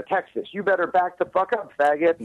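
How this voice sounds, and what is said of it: Put-on Southern drawl. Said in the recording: “I'm saying, you better back the fuck up in a southern drawl.”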